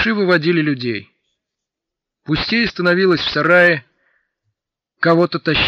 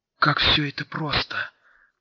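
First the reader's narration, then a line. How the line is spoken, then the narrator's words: Whisper. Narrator (Russian): прошептал артиллерист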